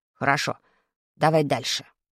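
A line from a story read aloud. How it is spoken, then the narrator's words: Stern command. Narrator (Russian): строго скомандовал Вадик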